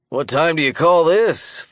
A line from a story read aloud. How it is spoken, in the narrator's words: Phil Norris asked with a husky smoker's laugh